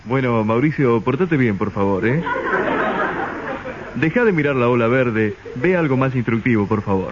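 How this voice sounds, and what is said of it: Smooth radio announcer voice. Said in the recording (Spanish): “se habla siempre como un locutor ... tiene voz de locutor”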